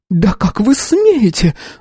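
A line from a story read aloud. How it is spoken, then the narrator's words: Shrieking. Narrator (Russian): взвизгнула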